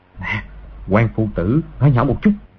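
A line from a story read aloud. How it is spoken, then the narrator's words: Soft voice. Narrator (Vietnamese): Từ Thiên Xuyên nói khẽ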